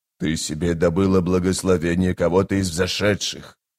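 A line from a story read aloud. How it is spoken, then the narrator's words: Hissing whisper. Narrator (Russian): шипящим шепотом заявил быстрый Бен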